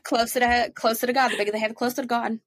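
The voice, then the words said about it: Put-on New Jersey accent. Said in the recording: “That was a New Jersey accent”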